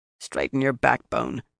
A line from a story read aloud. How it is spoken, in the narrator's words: Yukiri growled quietly